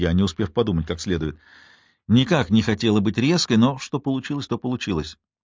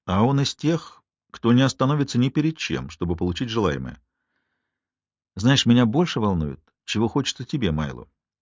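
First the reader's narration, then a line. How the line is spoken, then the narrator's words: Soft. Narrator (Russian): произнес Майло мягко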